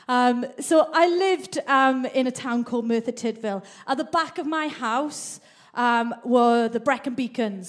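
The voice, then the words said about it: Mixed Welsh and Mancunian accent. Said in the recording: “would you be able to tell by my accent? What, that I'm Mancunian more than Welsh? I'm all of the above... you still know I'm Welsh. It's still in there.”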